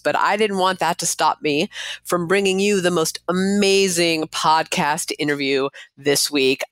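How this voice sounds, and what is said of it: Congested voice from head cold. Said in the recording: “clearly the person with a summer head cold, as you can hear in my voice.”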